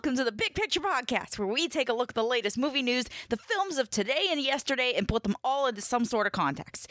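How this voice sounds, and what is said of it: Energetic imitation of another person's voice. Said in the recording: “I was trying to do my best Kevin Smith impersonation. ... he is awfully energetic.”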